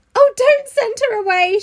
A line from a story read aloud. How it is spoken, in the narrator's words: she sobbed